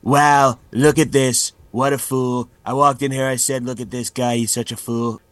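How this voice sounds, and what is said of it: Imitation of a comedian's Trump impression. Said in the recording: “I do a good impression of a late night host's impression of Trump”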